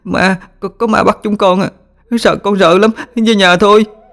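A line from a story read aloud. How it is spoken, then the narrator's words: Panicked children sobbing. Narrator (Vietnamese): hoảng loạn ôm chầm lấy bố mẹ mình mà khóc nức nở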